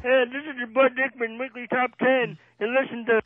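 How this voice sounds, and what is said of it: Impression of Bud Dickman. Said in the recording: “I can do an impersonation of him”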